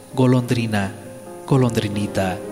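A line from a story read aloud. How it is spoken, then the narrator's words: Plain. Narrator (Spanish): dijo el príncipe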